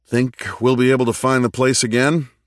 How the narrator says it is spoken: Richard said with a chuckle

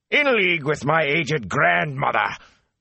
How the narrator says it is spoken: Captain Doman roared

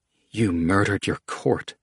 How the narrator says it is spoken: Manrique muttered, unable to look at the queen

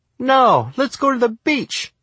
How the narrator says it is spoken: my mom squealed

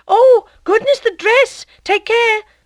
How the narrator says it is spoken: cried Madame Lefrançois

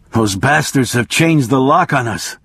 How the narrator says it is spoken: he groaned

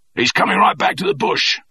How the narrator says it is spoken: shouted the corporal above the clatter in the sky

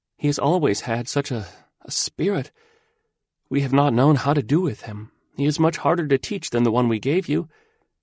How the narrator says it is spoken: she sighed piteously, and she gasped

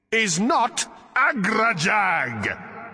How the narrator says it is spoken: roared the voice

